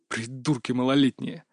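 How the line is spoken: Grumble. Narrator (Russian): проворчал Кастет

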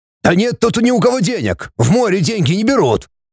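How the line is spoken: Young man yelling. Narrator (Russian): заорал парень

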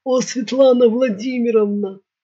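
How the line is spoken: Low voice. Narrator (Russian): заговорила кнопка низким голосом

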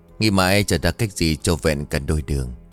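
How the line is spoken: Sighing. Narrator (Vietnamese): Minh Lượng bấy giờ thở dài một hơi rồi bảo

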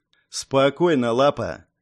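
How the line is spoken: Icy, curt. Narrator (Russian): ледяным голосом отрезал Пило

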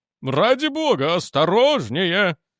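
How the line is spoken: Exclaiming. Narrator (Russian): воскликнул он

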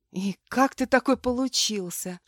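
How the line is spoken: Whispered. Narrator (Russian): шепнула

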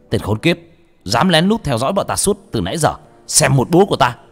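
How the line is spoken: Shout from behind. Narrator (Vietnamese): tiếng của sáu chột hét lên ở đằng sau

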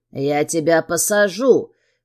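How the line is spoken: Hoarse rasp. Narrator (Russian): хрипит Сергей

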